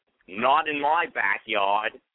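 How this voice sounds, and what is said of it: Put-on bad Boston accent. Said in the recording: “horrible Boston accent”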